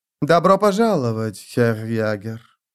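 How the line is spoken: Silky voice, soft Breton accent. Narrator (Russian): произнесла графиня шелковым голосом с мягким бретонским акцентом

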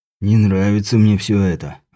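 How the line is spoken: Sigh. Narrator (Russian): вздохнул Рамон

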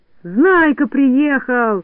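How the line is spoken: Excited yell. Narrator (Russian): завопил Растеряйка

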